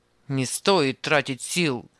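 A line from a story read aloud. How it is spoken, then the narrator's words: Rude grumble. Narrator (Russian): грубо пробурчал Анисим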